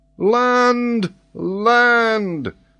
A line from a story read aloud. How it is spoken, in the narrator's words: shouted Paganel in a ringing tone